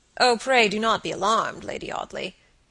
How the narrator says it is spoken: he said gravely

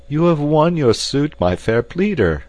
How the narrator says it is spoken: cried the captain

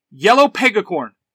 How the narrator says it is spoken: Trini yells

